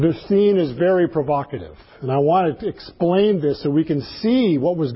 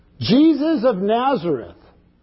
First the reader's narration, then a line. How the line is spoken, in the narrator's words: began to speak in a very loud voice